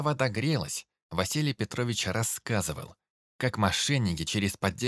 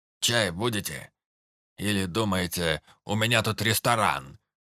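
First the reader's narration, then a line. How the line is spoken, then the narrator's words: Warm grumble. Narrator (Russian): Проворчал он, но в голосе слышалась теплота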